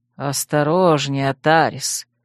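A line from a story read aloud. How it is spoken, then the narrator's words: Insinuating whisper. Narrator (Russian): вкрадчиво шепнул Итираэль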